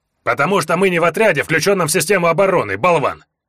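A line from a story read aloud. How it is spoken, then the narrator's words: Barking orc woman. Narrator (Russian): рявкнула орка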